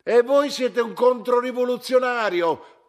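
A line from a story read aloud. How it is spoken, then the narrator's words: Shouted. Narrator (Italian): gridò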